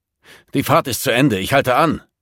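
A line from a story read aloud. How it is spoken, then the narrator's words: Roar. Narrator (German): brüllte Hockinson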